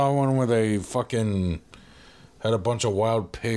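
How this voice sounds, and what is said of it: Usual voice. Nothing is said of it.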